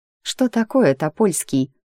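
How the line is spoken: Mocking question. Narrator (Russian): насмешливо спрашивает Милена

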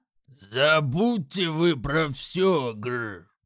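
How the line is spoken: Growling drowsy orc. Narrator (Russian): рыкнул орк, его глаза уже чуть осоловели

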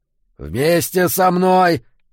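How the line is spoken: Growl. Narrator (Russian): зарычал Эммет

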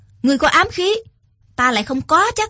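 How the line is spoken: Loud shout. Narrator (Vietnamese): quát lớn

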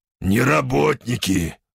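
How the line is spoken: Growl. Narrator (Russian): рыкнул я

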